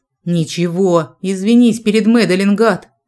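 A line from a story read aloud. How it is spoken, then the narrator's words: Growling. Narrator (Russian): прорычал Джек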